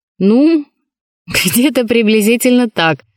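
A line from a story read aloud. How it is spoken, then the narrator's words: Laughing, evasive answer. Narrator (Russian): смеясь вместе со всеми, уклончиво ответил сенсей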